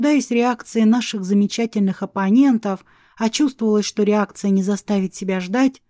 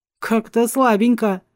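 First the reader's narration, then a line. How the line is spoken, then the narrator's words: Guard's snort. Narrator (Russian): хмыкнул 3-й стражник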